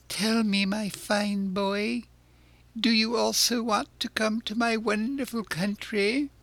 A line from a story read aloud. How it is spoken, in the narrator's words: With bows and smiles, he asked in a wheedling tone